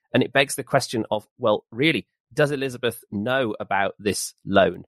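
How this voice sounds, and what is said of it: Smooth professional local radio voice. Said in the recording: “Local radio voice. ... What an amazing voice. ... He does sound ridiculously perfect ... Really professional, got his levels ... that smooth delivery”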